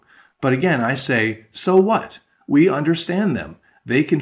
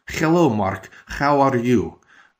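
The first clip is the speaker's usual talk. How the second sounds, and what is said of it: Imitated thick Russian accent. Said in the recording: “a brutally thick accent ... it's immediately obvious they're Russian.”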